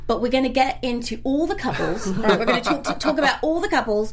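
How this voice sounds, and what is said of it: Put-on British accent. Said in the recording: “I'm doing my accent... Your accent's amazing... I had a British roommate at university and taught me how to do this”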